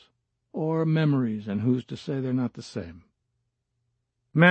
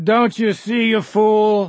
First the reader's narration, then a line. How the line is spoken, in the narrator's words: said no more, for the rest was just a scream